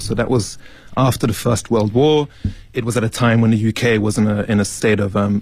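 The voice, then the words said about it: British accent. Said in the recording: “that British accent ... British accent”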